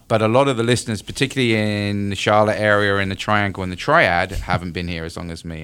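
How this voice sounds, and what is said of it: British (UK) accent. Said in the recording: “that accent ... I'm originally from the UK”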